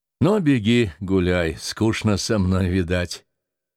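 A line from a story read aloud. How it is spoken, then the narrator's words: Sighing. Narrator (Russian): Артамонов-старший вздохнул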